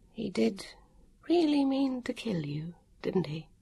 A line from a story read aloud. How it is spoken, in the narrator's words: she murmured